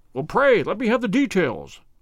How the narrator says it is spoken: I cried

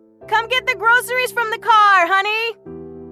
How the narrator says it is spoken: She shouted up the stairs

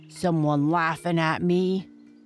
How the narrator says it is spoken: growled Bigfoot in his deep voice

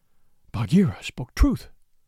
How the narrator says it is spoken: he panted

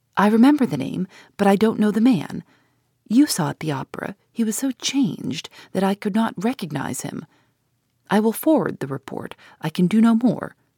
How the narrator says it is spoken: Pesca's voice saying eagerly, in low tones and in his own language

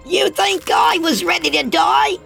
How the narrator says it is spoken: Oscar screeched in his young, high pitched voice

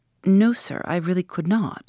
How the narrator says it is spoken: I answered firmly

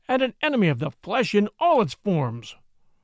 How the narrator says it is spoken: he thundered

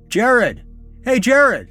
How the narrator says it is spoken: shouted from my window

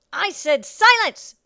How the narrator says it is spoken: the woman shrieked

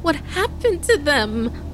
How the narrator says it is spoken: Kaden stammered through her tears

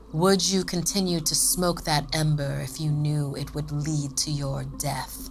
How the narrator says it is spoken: sneered, clearly taking the Noon Wraith for a heat mirage

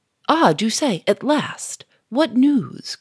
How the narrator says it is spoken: cried Gouchard

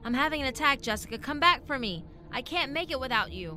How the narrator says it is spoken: He called out to her

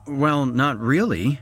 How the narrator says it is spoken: stammered

